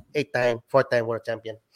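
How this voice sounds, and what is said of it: Imitates another person's voice. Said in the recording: “I can only impersonate like Manny Pacquiao ... That's a very good impression.”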